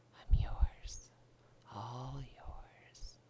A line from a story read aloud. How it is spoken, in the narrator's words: She whispers